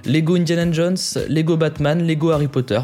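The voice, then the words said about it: Poor attempt at English accent. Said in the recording (French): “veuillez noter mon accent anglais de 0 à 20. On sera plus proche de 0 que de 20”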